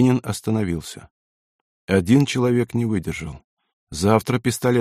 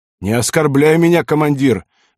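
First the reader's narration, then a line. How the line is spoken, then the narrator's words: Angry shout. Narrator (Russian): гневно крикнул матрос, забыв про боль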